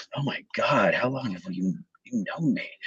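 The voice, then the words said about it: Impression of Lewis. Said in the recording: “pretty good Lewis impression”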